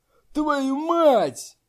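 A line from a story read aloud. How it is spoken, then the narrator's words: Shouted curse. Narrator (Russian): 44-й бандит выкрикнул проклятие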